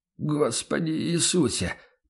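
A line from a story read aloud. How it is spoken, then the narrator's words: Muttered. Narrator (Russian): пробормотал торговец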